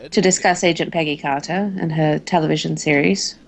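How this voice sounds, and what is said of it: Put-on British accent. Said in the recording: “get into your accent ... I will do my best to find the correct British accent”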